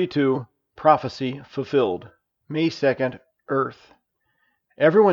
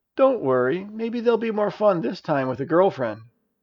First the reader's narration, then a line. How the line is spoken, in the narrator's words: Elisa / Raquel cooed